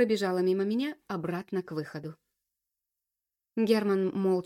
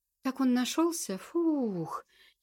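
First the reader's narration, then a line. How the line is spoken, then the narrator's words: Relieved exhale. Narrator (Russian): выдохнула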